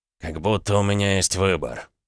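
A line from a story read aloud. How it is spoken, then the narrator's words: Gloomy. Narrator (Russian): мрачно ответил Дерешев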